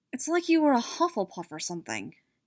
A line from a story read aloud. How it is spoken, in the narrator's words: she muttered